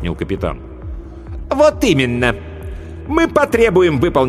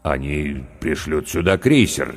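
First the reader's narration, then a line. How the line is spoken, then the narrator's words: Uncertain. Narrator (Russian): неуверенно сказал капитан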